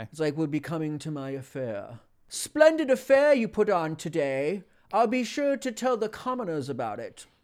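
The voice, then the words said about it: Put-on hoity-toity aristocratic accent. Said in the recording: “it's just kind of hoity-toity ... upper crust aristocratic BS”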